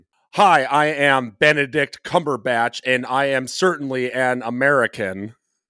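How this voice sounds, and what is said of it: Put-on American accent. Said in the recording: “Can I do my Benedict Cumberbatch as an American accent?”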